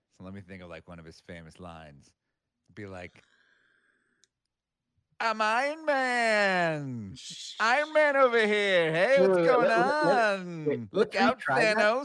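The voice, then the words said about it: Impression of Tony Stark character. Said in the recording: “how would a Tony Stark voiced by ... even go?... do an impression.”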